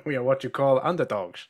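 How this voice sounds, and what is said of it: Put-on Dutch accent. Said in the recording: “when he tried to be Dutch ... That was a Dutch accent”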